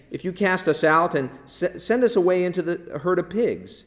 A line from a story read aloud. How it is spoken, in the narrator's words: the demons begged him, saying